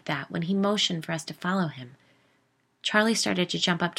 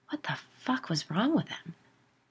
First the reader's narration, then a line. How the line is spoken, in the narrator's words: Buffy whispered